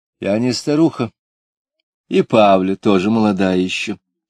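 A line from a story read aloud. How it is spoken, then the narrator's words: Calm objection. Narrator (Russian): спокойно возразила Лида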